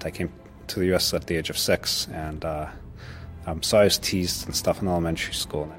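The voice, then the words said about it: Russian accent. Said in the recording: “which explains his Russian accent”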